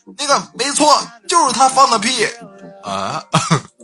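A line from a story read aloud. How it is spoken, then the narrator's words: Shouting. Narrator (Chinese): 我就大喊一声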